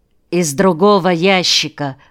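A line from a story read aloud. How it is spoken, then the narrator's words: Plain. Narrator (Russian): сказал Николай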